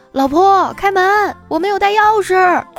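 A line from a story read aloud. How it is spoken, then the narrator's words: Shouting while knocking. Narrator (Chinese): 小伙就敲门大喊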